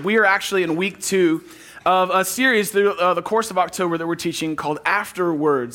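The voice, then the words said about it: Hoarse, worn-out voice. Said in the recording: “losing my voice, and I already lost it today”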